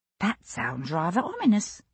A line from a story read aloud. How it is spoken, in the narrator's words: Dotty murmured